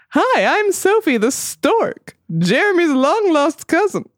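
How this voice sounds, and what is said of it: Silly character voice for a stork. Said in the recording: “Why am I doing this voice?”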